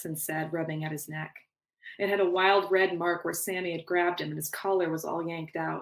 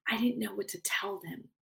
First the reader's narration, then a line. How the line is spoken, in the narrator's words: whispered, as if the situation were some kind of embarrassing secret